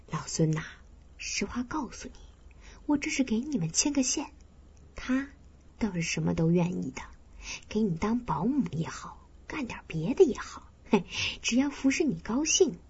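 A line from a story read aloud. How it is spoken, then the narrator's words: Low, hushed. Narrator (Chinese): 我压低了声音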